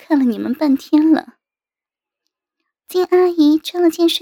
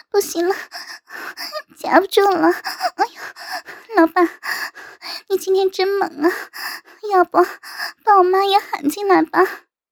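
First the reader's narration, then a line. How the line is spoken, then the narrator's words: Trembling coy moan. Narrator (Chinese): 颤声的娇吟道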